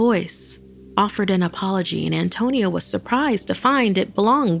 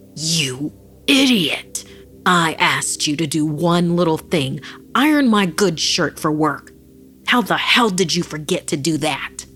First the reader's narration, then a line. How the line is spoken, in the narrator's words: Filled with rage, Antonio found himself bellowing